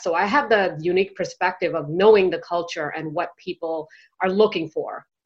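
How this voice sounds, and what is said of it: American accent. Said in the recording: “as you can tell by my accent, I am basically brought up in the US”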